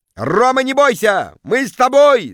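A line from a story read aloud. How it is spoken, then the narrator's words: Crowd yelling. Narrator (Russian): завопили в зале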